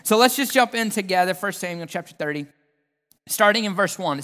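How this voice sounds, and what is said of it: Southern American accent. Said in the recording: “the southernness of my accent”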